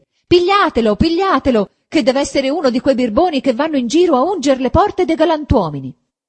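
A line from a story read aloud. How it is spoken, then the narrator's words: Rude woman shouting. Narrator (Italian): quella medesima sgarbata di prima gridava anche lei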